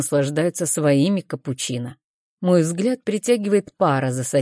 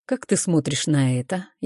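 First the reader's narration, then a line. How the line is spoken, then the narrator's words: Soft voice. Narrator (Russian): Его голос звучит мягко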